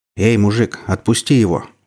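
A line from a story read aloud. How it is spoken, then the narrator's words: Threatening, through gritted teeth. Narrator (Russian): угрожающе процедил самый здоровый пацан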